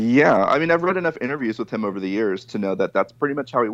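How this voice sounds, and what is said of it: Usual voice. Nothing is said of it.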